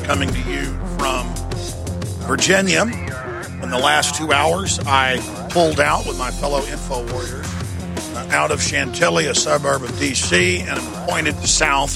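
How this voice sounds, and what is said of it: Strained, laboring hoarse voice. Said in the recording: “my voice is laboring a bit because I've been bullhorning since last Wednesday straight through to just about 2 hours ago”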